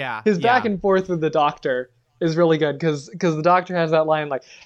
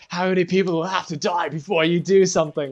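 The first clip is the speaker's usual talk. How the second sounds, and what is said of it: Poor put-on Scottish accent. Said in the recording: “Wow, that is a terrible Scottish accent.”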